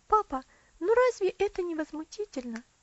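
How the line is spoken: Indignant exclamation. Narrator (Russian): воскликнула Элси

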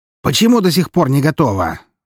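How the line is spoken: Shouting. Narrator (Russian): закричал шеф

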